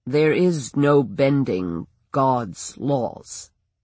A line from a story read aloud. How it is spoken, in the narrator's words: he said slowly